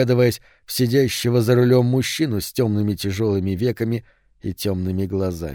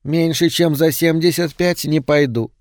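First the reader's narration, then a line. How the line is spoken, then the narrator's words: Indifferent thin voice. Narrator (Russian): сказала она равнодушно тонким голосом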